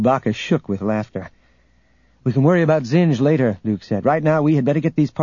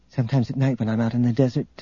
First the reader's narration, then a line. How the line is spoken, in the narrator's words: Tenenyul said softly